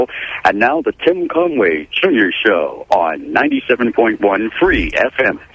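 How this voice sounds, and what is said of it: Radio announcer voice. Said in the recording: “I have a good voice. I can do voiceovers for you... with the announcer... I got a very good voice”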